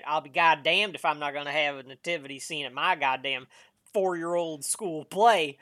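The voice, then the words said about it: Put-on Southern US accent. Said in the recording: “I don't know why I did a southern accent for that.”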